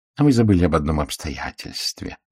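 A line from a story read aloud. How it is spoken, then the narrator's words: Soft, gentle tone. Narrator (Russian): мягко сказал Пуаро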